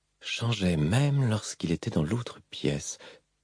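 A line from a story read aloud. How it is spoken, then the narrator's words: Mumbled. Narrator (French): marmonna Rouchou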